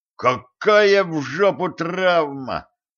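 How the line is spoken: Cold furious exclamation. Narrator (Russian): воскликнул он с холодным бешенством

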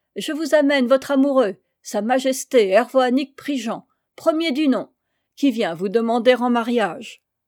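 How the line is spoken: Shouted. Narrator (French): criait à Coupaïa

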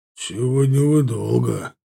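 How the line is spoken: Grumble. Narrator (Russian): пробурчал чернокожий Линкольн

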